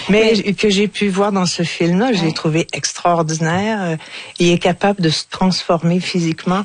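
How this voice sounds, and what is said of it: Strong regional accent. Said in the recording (French): “J'ai un gros accent”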